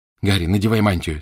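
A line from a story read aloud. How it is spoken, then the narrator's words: Plain. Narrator (Russian): сказала Гермиона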